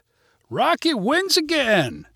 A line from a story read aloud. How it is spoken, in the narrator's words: shouted voices in the crowd